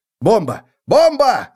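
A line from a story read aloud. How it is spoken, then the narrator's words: Screaming behind a door. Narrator (Russian): завопили за дверью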